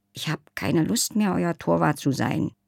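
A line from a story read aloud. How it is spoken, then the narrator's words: Very quiet voice. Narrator (German): sagte Leiselotte aber wieder so leise, dass Sven es nicht hörte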